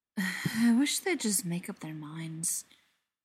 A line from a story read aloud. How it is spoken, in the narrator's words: the vampire said around a tired sigh